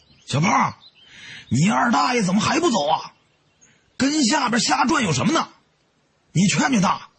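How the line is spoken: Amused shout. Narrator (Chinese): 我 觉得好笑，对在另一棵树上的胖子喊

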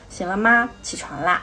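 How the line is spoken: Very gentle. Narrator (Chinese): 一声非常非常温柔的说

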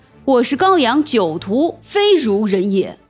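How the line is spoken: Furious outburst. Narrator (Chinese): 厉时齐勃然大怒，道

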